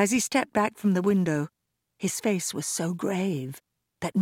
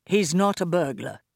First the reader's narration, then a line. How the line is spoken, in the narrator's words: replied Mo